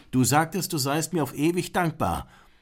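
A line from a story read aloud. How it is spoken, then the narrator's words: Calling out. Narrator (German): Grishwash rief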